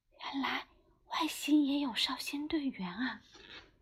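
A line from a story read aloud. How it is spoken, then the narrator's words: Quiet. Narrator (Chinese): 姜小牙小声说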